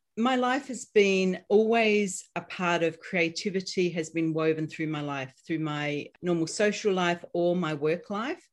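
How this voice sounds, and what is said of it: Australian accent. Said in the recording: “you're going to notice my accent. So I'm Australian”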